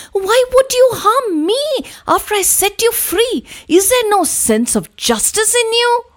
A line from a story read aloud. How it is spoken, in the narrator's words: The man was taken aback and exclaimed in disbelief